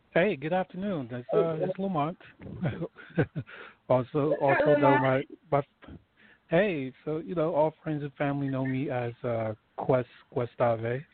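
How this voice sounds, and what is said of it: Smooth radio-style voice. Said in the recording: “You got a nice radio voice”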